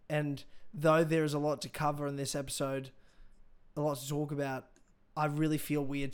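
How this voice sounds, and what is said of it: Hoarse, strained voice. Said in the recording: “I'm losing my voice ... the reason I lost my voice is because I was screaming”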